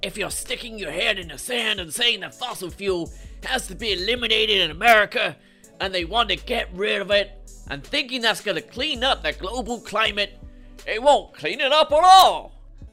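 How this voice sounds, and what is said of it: American accent impression of Joe Manchin. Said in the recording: “never do that accent around any actual Americans”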